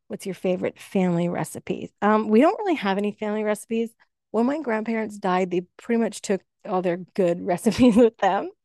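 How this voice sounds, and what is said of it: Slightly raspy, tired voice. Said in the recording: “I'm actually running on very little sleep right now... my voice is a little raspier than normally would be”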